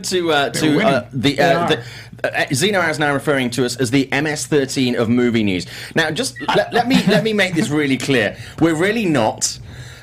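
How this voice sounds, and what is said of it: English accent. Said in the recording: “it sounds so much better from you with the English accent.”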